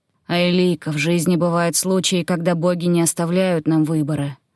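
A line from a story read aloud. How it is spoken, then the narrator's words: Sharp. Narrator (Russian): резко произнес он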